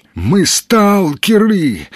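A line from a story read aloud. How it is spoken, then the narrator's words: Strained, cracking voice, coughing. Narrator (Russian): выдавил из последних сил Сергей, дав петуха и захлебнувшись сухим кашлем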